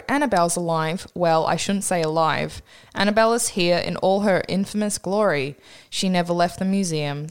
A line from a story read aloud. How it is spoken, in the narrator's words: the owner says